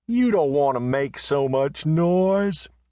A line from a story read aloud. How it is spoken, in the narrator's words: said Marietta, yawning